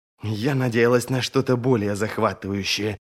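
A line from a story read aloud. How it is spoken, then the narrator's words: Grumbling. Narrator (Russian): проворчала Колючка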